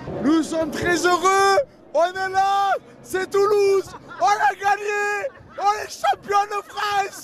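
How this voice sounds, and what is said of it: Southern French accent, slightly hoarse voice. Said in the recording (French): “avec l'accent et avec la voix sans doute un peu cassée”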